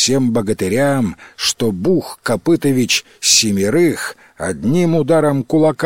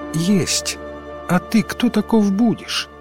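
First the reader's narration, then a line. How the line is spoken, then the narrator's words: Quiet reply. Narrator (Russian): откликнулся кто-то тихим голосом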